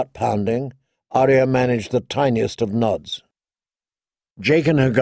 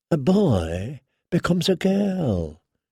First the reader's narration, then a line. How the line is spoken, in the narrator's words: he murmured